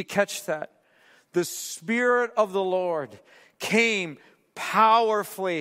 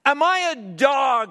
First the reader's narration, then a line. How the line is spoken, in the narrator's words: he roared at David